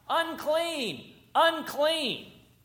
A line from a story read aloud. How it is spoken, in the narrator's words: shout something different